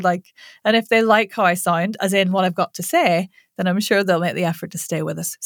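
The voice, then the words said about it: Irish accent. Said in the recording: “unfamiliar with my accent ... I know I've got weird Irish vowels”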